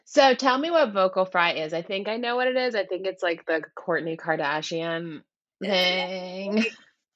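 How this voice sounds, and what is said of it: Raspy, hoarse voice. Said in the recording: “Raspy ... I have a little bit of a sore throat. So my voice sounds a little funny ... I definitely sound like I smoke a pack of cigarettes every day.”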